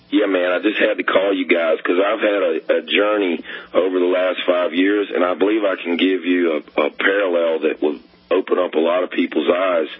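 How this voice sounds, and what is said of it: Hoarse, laryngitis-strained voice. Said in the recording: “apologies for my voice. I'm kind of hoarse. I've got some kind of laryngitis”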